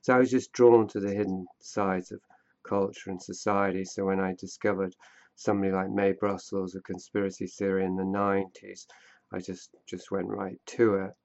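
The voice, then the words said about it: British accent. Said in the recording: “Are you American or British or Australian? I notice an accent... Yeah, I'm British”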